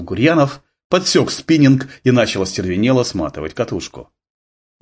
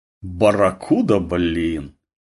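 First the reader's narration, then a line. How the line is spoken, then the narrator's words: Meaningful drawl. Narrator (Russian): Голосом, исполненным богатого смысла, протянула Татьяна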